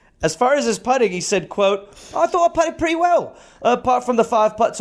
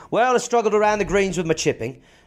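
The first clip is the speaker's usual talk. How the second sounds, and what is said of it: Put-on English accent. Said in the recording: “I'll do it in English accent.”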